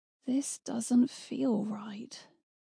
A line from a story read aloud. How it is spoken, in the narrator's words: muttered